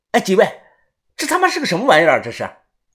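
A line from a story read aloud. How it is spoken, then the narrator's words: Loud. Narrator (Chinese): 小道士…才大声的说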